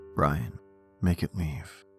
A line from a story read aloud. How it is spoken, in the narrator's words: In a weak voice, he simply said